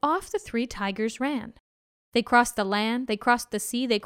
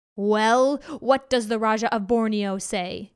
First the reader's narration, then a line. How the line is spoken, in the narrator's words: he growled